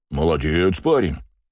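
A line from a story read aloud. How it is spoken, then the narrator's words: Deep bass voice. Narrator (Russian): пробасил мужик в косоворотке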